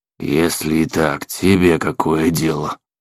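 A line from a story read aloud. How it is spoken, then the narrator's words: Grumbling vagrant. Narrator (Russian): проворчал бродяга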